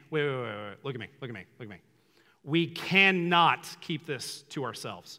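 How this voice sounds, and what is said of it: Stern dad voice. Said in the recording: “that's my dad voice.”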